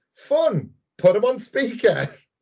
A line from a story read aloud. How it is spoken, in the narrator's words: Peanut Butter excitedly says